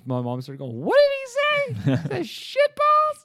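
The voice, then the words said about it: Great impression, Mickey Mouse-like voice. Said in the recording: “That's a great impersonation. ... My mom sounds just like this. ... Mickey Mouse.”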